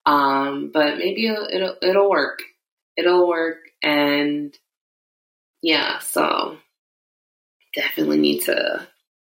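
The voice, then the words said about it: Raspy, sore-throated voice. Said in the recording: “my throat is so sore... my voice is a little raspier than usual”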